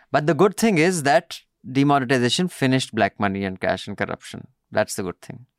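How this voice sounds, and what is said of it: Sarcastic delivery. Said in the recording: “I'm being sarcastic, joking.”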